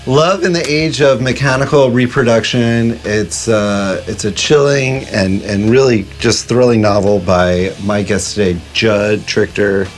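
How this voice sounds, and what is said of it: Raspy, deep voice from a cold. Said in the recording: “raspy voice of this week. I have this like winter cold thing ... my kind of Harvey Fierstein deep voice”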